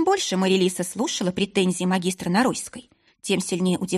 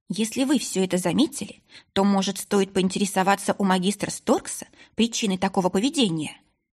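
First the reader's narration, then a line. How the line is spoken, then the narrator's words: Plain question. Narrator (Russian): спросила Марилиса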